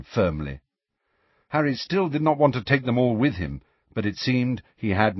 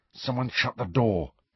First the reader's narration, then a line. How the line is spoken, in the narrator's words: Harry muttered